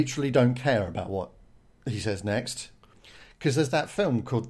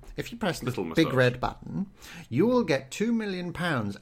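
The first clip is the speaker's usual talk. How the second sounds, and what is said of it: Slightly evil character voice. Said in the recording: “Give him a voice. ... we've got a slightly evil voice going on here. Just not too evil”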